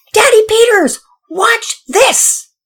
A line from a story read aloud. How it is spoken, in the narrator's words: Pearson, who was at the top of the hill, yelled